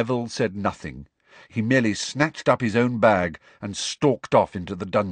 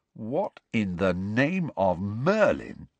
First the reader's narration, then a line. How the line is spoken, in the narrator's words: said Ron slowly